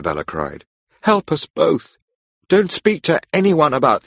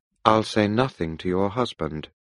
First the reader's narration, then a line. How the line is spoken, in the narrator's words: I said coldly